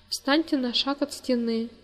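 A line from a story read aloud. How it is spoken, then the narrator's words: Tired officer. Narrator (Russian): устало сказал лейтенант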